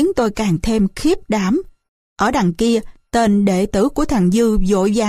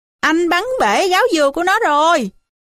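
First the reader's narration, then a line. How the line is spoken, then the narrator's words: Malicious shout. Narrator (Vietnamese): Thằng Dế ác nhơn la lên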